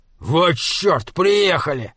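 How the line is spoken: Angry. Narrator (Russian): сердито сказал Лам

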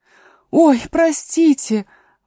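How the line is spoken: Upset exclamation. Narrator (Russian): воскликнула она огорченно

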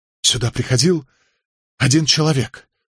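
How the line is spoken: Forced out. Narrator (Russian): выдавил он из себя

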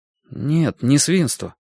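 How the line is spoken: Confused objection. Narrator (Russian): возразил я растерянно

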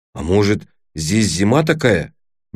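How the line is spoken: Hesitant question. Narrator (Russian): неуверенно спросил Илья

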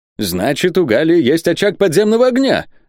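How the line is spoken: Exclaiming. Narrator (Russian): воскликнул Сервадак

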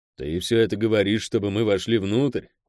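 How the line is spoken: Skeptical snort. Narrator (Russian): Клод хмыкнул

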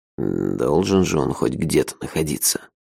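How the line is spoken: Gloomy mutter. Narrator (Russian): хмуро буркнул Лонли Локли

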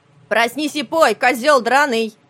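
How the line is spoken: Cracked shrill voice. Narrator (Russian): Натреснутый, визгливый голос Детты

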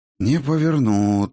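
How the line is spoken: Sighing. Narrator (Russian): вздохнул рыцарь

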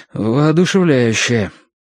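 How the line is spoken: Slightly trembling voice. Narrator (Russian): ответил слегка дрожащим голосом

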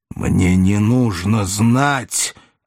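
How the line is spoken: Stifled angry voice. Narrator (Russian): придушенным злым голосом отозвался Пилат

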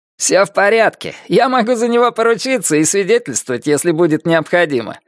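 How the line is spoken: Laughing. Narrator (Russian): засмеялся сосед

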